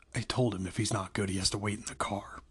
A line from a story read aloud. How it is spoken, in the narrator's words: Marla told Charlie quietly